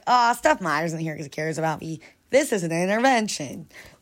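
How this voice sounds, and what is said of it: Poor impression of a comedian's voice. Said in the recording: “That was such a bad John Mulaney impression.”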